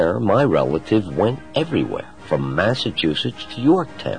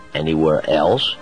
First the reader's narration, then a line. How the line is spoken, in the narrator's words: I asked